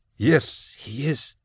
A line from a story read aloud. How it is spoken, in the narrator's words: she stammered